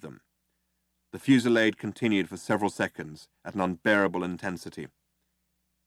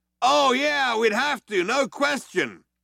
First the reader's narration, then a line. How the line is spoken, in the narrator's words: the other one yelled back